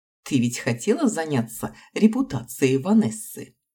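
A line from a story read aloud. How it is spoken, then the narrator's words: Laughing. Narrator (Russian): рассмеялся Аарон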